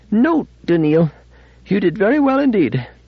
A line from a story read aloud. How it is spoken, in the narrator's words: Panting slightly, Fastolf said